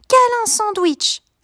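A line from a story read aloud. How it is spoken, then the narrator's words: Exclaiming. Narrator (French): s'écrie Abby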